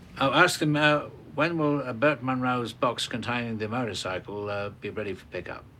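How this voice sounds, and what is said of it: Speaks with a noticeable accent. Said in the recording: “They'll never get my accent.”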